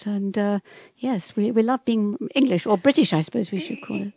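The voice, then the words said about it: Posh English accent. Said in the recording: “I love her accent ... the English accent ... You sound like the Queen ... a sort of a London accent”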